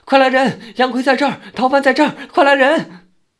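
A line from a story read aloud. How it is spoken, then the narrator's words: Loud shout through cupped hands. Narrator (Chinese): 两手做成喇叭状，高声喊道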